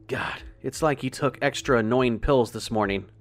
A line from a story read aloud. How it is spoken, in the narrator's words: groaned